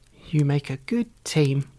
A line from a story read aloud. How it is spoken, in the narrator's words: laughed Mum